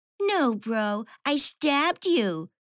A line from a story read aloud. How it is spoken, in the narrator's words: sneered Petra